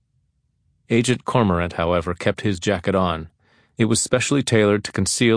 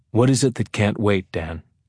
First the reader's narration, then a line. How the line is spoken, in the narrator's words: Tillman asked